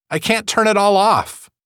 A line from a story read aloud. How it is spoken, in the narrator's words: she cried